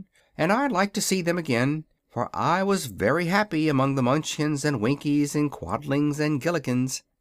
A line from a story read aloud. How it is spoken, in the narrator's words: remarked the wizard in a thoughtful tone